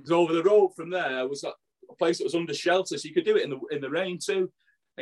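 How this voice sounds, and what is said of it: Manchester-area English accent. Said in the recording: “I'm from Burnage, Firetown, you know, you can probably tell that with the accent”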